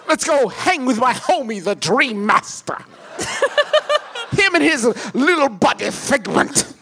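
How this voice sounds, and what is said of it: Imitates another person's voice. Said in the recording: “God, it's an impeccable Tim Curry ... Nailed it ... you do an amazing impression of what you think Tim Curry sounds like”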